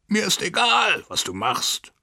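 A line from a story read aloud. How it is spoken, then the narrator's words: Shouting. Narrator (German): schrie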